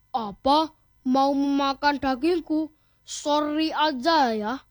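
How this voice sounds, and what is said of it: Shouted line. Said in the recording (Indonesian): “Teriak Kancil sambil berlari sekuat tenaga.”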